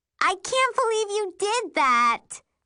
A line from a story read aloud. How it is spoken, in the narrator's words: Mary squeals